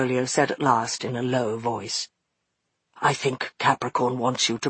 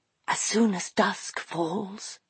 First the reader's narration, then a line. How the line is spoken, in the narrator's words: she whispered